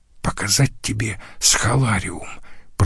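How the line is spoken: Whisper. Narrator (Russian): прошептал Лаурьен своему другу Иосифу

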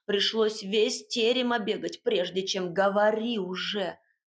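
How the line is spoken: Angry bark. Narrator (Russian): В сердцах рявкнула

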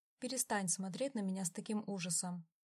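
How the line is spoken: Calm command. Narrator (Russian): спокойно приказал Дон

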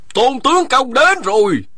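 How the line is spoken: Shouted announcement. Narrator (Vietnamese): một người chạy vào khách điếm la lên

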